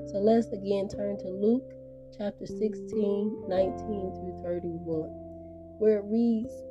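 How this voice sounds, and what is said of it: Raspy voice from a cold. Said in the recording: “raspy voice. I'm actually getting over a little common cold here”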